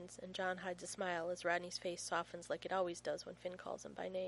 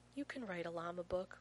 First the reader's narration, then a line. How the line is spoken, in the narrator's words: Rodney whispers awkwardly